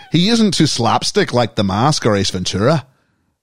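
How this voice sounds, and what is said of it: Put-on Irish accent. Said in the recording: “I've gone a little Irish here.”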